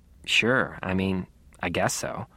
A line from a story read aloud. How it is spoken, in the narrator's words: just mumbled